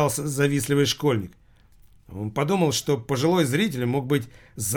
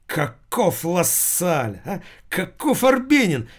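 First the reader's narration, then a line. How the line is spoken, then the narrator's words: Sudden loud exclamation. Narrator (Russian): вдруг воскликнул пенсионер неожиданно громко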